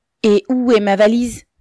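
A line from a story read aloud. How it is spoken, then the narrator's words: Sudden loud stern question. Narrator (French): demanda soudain Pélagée, d'une voix forte et sévère, sans se rendre compte de ce qu'elle faisait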